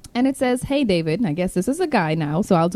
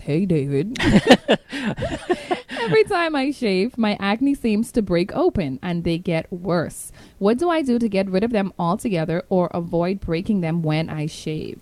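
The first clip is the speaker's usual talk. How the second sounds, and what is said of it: Put-on deeper male voice. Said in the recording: “I'll do it my little deeper voice.”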